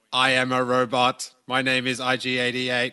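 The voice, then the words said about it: Robot voice imitating IG-88. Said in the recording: “I am doing a robot voice as I'm a robot. Like that's the only voice I can imagine IG-88 having.”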